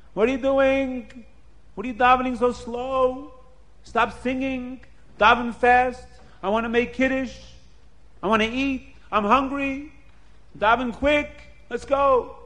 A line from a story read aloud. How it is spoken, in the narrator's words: the Balabas starts screaming